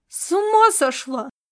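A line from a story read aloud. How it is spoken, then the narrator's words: Yell. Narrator (Russian): завопил он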